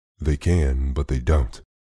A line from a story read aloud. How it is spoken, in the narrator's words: said quite calmly